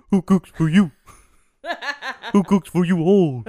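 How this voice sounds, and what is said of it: Kermit-like Muppet owl call voice. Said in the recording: “That was like a Muppet owl. ... It was Kermit doing his best owl impression.”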